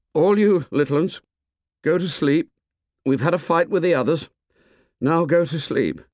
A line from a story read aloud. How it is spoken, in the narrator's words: Ralph called out in a quavering voice